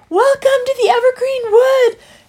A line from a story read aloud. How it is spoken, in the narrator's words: They cried